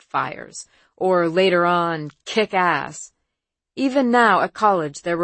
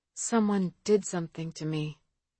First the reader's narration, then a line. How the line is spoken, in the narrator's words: Greer whispered